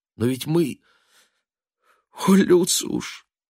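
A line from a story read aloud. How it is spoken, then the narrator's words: Almost plaintive exclamation. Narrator (Russian): воскликнула она теперь почти что жалобно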